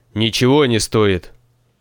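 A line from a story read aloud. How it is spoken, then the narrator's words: Angry old man interrupting. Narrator (Russian): Сердито перебил старец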